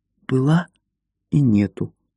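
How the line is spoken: Whisper. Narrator (Russian): шепнула Марта

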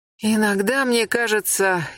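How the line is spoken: Sighing. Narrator (Russian): Яхмос снова вздохнул

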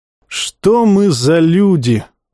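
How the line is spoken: Sighing. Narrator (Russian): вздохнул Тумидус

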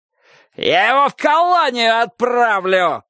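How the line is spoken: Shouting. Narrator (Russian): кричал Собаколов

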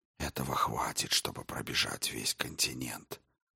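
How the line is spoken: Whisper. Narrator (Russian): прошептал Дрогон

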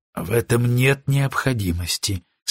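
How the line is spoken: Calm. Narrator (Russian): спокойно отвечал Страчин

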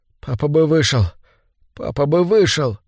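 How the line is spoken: Overwrought boy mumbling. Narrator (Russian): Нервы мальчика были натянуты до предела, и когда к нему приблизилась мать, он взглянул в ее испуганное лицо и забормотал

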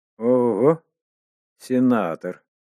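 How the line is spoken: Strange voice. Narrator (Russian): произнес кто-то странным голосом

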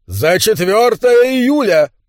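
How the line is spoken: Roaring. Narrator (Russian): проревел Эрик

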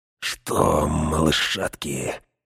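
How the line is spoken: Insinuating whisper. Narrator (Russian): вкрадчиво прошептал Грышнак

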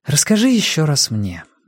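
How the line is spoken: Soft request. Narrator (Russian): мягко попросила Сага

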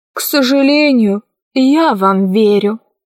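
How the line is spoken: Sighing. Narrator (Russian): вздохнул Гим

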